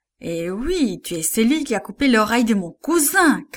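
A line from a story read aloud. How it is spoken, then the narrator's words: Shout. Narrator (French): cria-t-il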